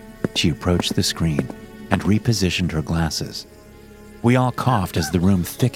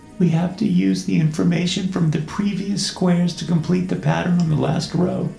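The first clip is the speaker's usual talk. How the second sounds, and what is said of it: Meek, timid voice. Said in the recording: “in her meek voice”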